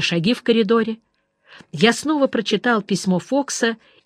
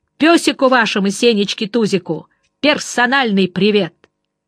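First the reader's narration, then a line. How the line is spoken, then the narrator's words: Open shout from the corridor. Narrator (Russian): из коридора, не таясь, крикнул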